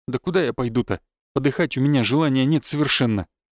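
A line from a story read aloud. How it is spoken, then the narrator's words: Sullen mutter while chewing. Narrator (Russian): буркнул воробей, хмуро прожевывая яичницу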